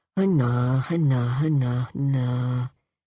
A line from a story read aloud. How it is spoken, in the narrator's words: would murmur